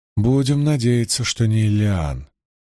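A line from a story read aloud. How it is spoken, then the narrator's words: Uncertain. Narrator (Russian): неуверенно промолвила Найниф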